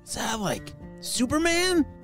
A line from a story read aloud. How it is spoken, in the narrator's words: shouted George